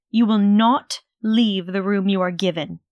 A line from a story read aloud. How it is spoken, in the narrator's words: she continued harshly, her lips pursed with stress